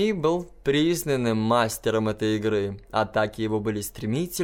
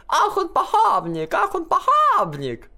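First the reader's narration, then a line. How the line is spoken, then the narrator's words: Joyful chorus chanting. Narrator (Russian): хор голосов радостно подхватывал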